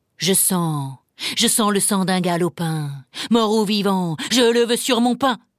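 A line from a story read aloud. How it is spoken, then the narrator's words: Ogre growling. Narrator (French): gronda l'ogre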